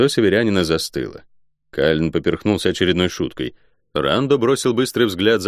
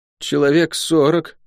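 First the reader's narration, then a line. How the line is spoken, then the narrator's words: Mumbled. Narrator (Russian): промямлил Лук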